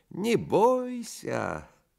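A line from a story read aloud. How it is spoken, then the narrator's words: Thin singsong voice. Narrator (Russian): Селифан примолвил тонким певучим голоском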